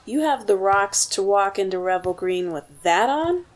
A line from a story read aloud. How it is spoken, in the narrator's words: sneered